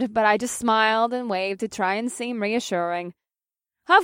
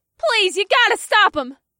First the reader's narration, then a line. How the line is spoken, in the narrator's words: someone else yelled